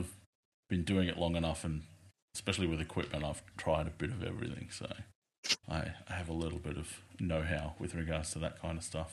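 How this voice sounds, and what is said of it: Thick Australian male accent. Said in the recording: “my accent ... a male and a female thick Australian accent”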